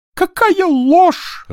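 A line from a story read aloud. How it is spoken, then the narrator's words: Sobbing. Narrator (Russian): рыдал он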